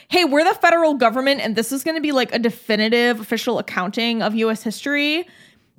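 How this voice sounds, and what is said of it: Valley Girl voice. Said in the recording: “In your imitation, the federal government is like a valley girl”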